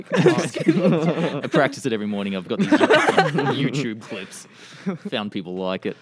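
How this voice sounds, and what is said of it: Australian accent. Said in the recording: “this wonderful accent... this accent is actually genuine... born in Sydney, Australia... Aussie here”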